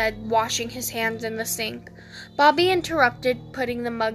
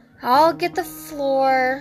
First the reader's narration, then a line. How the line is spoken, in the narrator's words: Sam sighed